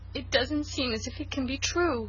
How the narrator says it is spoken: sobbed Cecily

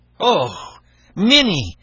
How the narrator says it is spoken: cried the man in fright

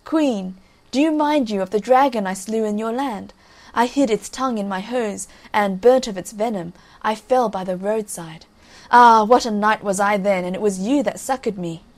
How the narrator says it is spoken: the fool still laughed and cried

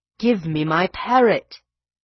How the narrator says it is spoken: he cried in an imploring voice

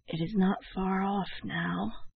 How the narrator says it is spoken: His voice sank to a whisper as he added

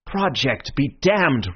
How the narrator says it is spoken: roared Syme, beside himself

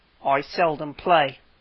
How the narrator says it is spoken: said the Psammead coldly

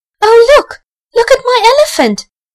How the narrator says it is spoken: cried Archie

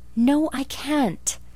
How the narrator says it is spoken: exclaimed Anne desperately

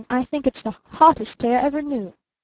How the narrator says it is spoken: snapped Barton

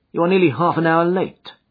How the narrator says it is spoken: said he curtly

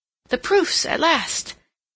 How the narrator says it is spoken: Seal ... with renewed hope ... exclaiming

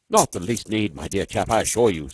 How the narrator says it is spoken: said Norton hastily

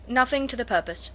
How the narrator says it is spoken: replied her brother

